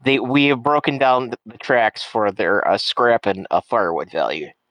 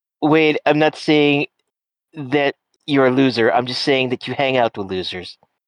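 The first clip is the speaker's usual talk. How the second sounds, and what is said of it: Imitates another person's voice. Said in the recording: “That is a one, Donald Cheeto God Trump... that was the impression you were going for, yes?”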